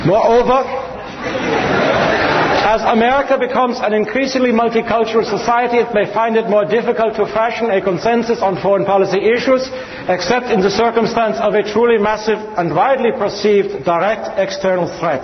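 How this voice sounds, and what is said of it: Put-on German accent. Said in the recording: “Maybe I should read this with a German accent.”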